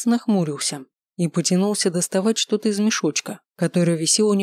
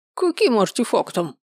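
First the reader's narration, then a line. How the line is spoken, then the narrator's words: Squeaky. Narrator (Russian): пропищал Маркус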